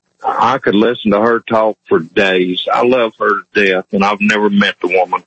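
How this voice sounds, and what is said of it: Hillbilly accent. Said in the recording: “Do you think you have an accent? ... Yes, sir. I know I do. I'm a hillbilly.”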